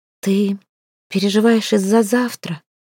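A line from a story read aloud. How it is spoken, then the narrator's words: Close whisper. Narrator (Russian): прошептала у его виска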